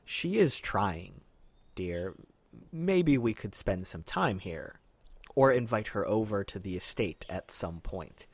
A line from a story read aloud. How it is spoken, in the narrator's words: he says very quietly